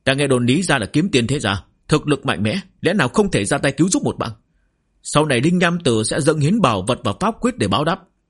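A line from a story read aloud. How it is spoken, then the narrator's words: Urgent loud shout. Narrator (Vietnamese): Linh Nham Tử khó có thể chống đỡ lâu dài, vội vàng hét lớn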